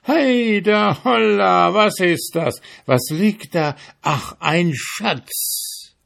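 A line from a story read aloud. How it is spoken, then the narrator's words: Sudden shout. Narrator (German): Auf einmal schrie er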